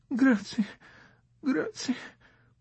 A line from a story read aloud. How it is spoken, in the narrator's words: with a tiny, polite smile, murmuring